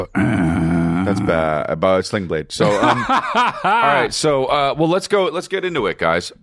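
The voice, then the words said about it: Congested, hoarse voice. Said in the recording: “I'm losing my voice. ... you sound congested too. ... I'm a little congested. ... you sound congested.”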